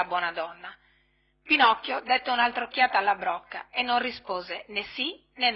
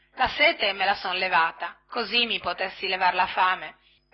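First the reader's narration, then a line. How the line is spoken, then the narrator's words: Muttering under breath. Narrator (Italian): borbottò a mezza voce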